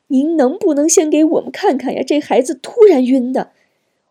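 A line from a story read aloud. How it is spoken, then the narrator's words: Anxious pleading. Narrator (Chinese): 急得何晶直央求护士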